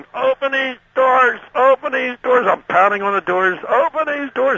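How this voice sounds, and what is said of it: Yelling, panicked shouting. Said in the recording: “I'm yelling,”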